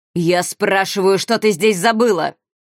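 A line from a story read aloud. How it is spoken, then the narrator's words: Growled. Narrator (Russian): прорычал Моро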